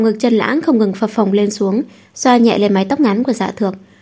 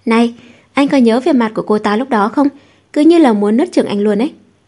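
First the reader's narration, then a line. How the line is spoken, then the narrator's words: Giggling. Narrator (Vietnamese): bật cười khúc khích nói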